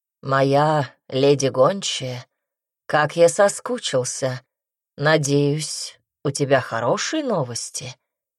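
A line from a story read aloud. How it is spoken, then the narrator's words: Purring. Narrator (Russian): промурлыкал он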